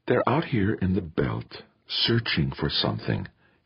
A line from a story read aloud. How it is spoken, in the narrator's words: she whispered in his ear